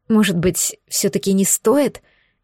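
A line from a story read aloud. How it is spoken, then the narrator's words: Frightened whimper. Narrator (Russian): испуганно скульнула Лана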